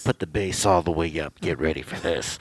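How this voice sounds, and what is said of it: Sleazy strip club announcer voice. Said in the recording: “You sound like a dirty announcer at a strip club.”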